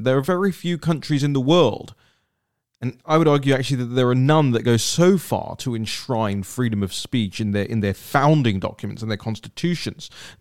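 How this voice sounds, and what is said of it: Non-American accent. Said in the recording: “you could probably hear, as I always say from my accent, that I'm not from round these parts”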